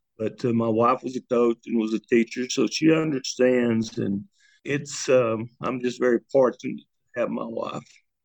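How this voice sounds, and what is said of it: Choked-up, emotional voice. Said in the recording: “Sorry, I get a little choked up.”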